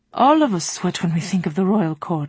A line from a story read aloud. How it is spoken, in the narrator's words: he said dryly